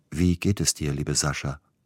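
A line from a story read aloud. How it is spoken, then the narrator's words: Plain question, brother. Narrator (German): fragte der Bruder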